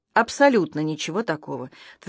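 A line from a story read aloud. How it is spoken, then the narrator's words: Firm voice. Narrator (Russian): твердым голосом сказал я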